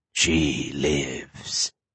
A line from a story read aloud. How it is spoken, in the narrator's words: the monster purred